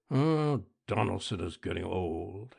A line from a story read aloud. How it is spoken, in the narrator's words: he muttered